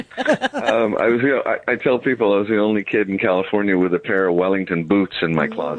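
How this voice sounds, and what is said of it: Slight California accent. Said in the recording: “I noticed a bit of that California accent.”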